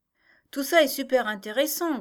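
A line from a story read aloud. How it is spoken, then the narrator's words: Girl grumbling. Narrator (French): grogna la jeune fille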